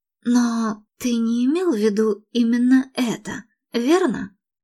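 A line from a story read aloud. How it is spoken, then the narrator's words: Whispered. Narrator (Russian): прошептала Мередит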